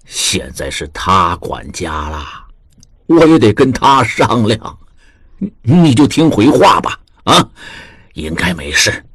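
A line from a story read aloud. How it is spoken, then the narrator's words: Low, smiling. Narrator (Chinese): 露出如孩童一般的笑容，低声道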